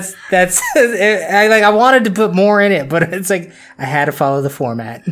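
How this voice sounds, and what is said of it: Usual voice. Nothing is said of it.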